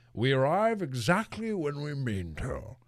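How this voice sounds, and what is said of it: Ian McKellen's Gandalf impression. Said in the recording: “That's not my best, Sir Ian McKellen. ... It's not my best Ian McKellen, not my best Gandalf impression. That's my first Gandalf impression ever.”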